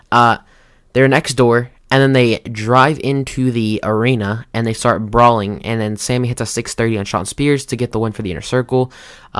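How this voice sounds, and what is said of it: Hoarse, strained voice. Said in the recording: “I lost my voice, right? Like, beginning of the match, singing Judas. ... I can kind of tell. ... I lost my voice.”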